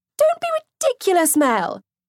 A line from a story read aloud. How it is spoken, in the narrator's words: Sophie piped up eagerly